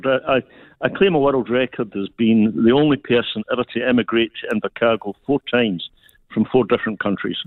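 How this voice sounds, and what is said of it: Scottish accent. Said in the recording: “I'm Scottish ... I love your beautiful accent”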